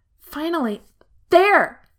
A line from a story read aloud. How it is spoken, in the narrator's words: Lan Xingyi yells